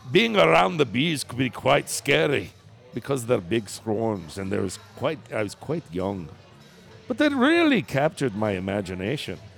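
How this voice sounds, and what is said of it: Put-on Scottish accent. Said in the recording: “Now do it in a Scottish accent ... That was pretty good.”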